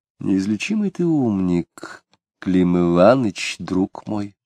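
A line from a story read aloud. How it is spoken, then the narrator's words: Thoughtful. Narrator (Russian): Задумчиво сказала она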